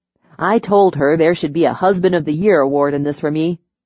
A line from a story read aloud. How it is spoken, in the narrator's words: he said and chuckled